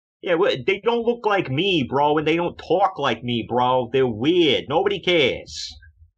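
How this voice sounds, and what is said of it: Over-the-top New York accent. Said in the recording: “the over-the-top New York accent”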